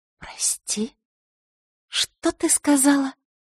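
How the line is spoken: Quiet furious whisper. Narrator (Russian): произнесла тихим, разъяренным шепотом

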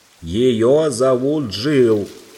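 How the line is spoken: Owl shouting loudly. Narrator (Russian): громко крикнула сова прямо в ухо

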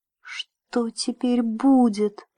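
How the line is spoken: Whisper. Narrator (Russian): прошептал Джим

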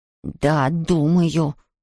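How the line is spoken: Hissed. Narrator (Russian): прошипел он

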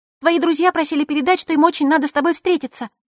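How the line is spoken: Sudden rapid chatter. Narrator (Russian): неожиданно затараторила Николь

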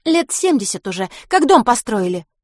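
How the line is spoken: Girl's snort. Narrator (Russian): фыркнула девчонка

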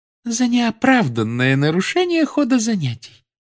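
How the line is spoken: Calm. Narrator (Russian): спокойно произнесла профессор Амбридж

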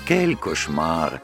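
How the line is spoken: Sighing. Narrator (Russian): вздохнула француженка

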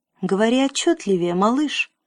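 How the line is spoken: Gentle. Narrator (Russian): ласково сказал император

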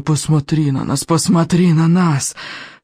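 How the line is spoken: Hissing from all around. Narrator (Russian): шипело вокруг

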